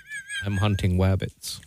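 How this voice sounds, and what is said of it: Elmer Fudd impression. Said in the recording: “That was Elmer Fudd.”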